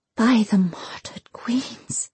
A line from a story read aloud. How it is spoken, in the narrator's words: she whispered